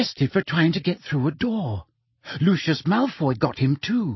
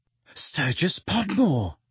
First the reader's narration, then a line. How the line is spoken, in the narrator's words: said Hermione breathlessly